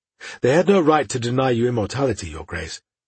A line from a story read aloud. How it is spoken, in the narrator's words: Paldora purred into his ear